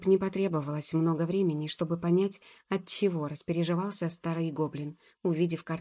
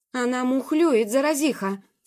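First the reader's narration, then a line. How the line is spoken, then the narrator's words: Furious yelling. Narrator (Russian): с яростью вопил он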